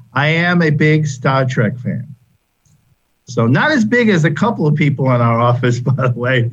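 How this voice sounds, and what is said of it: Massachusetts accent. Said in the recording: “you can tell from my accent, I am not a native Floridian. I am from Massachusetts originally.”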